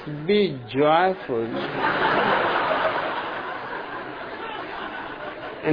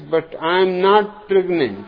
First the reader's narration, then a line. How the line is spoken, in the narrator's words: Indignantly, the woman replies